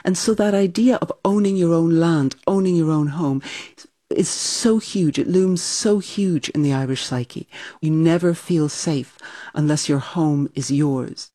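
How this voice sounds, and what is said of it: Slightly transatlantic accent. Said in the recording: “your accent, which is a little transatlantic”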